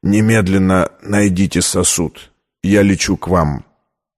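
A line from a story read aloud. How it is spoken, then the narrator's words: Choked out between coughs, tearful. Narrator (Russian): Зайдясь в приступе кашля, он, задыхаясь и заливаясь слезами, выдавил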